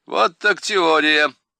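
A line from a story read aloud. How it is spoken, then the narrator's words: Loud laughter, hidden malice. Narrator (Russian): громко расхохотался Иво, пряча в глазах злобу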